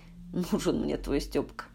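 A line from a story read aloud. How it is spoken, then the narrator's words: Contemptuous snort. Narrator (Russian): презрительно фыркнула Валентина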